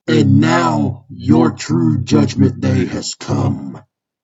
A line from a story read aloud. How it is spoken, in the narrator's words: In a demonic voice, Balor says